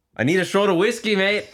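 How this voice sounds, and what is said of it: Attempted Scottish accent, sounds Australian. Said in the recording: “give me your best Scottish accent ... That was a little Australian.”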